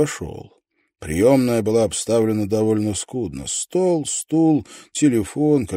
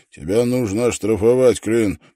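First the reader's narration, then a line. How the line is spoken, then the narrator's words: Grumbling. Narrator (Russian): проворчал он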